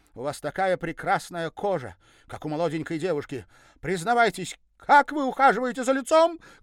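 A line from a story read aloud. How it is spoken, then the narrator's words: Scolding official's shout. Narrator (Russian): крикнула я, как секретарь партбюро на опоздавших на собрание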